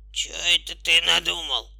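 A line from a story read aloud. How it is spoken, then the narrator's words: Hoarse growl. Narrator (Russian): хотел крикнуть ослик, но только хрипло зарычал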